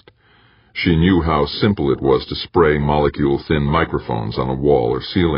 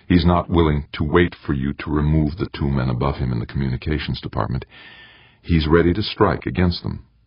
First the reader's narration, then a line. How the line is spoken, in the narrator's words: Morgenthau replied calmly